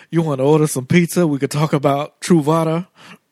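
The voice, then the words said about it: Poor impression, thick Southern accent. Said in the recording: “With a thick Southern accent, ... with a crazy like Colonel Sanders accent. ... Terrible impression”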